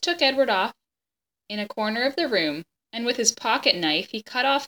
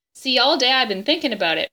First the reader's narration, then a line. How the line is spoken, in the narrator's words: Bryce said